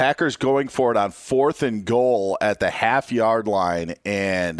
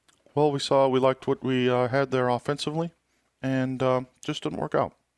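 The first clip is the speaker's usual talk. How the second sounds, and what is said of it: Imitates another person's voice. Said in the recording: “my Aaron Rodgers imitation ... That was pretty good, Aaron Rodgers ... maybe like a 7.2”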